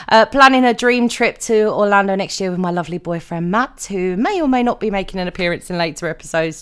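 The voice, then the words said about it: British accent. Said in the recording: “I am a Brit, in case you can't tell by the accent”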